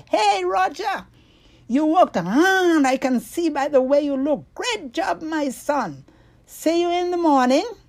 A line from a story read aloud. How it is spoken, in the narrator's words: Wallace shouted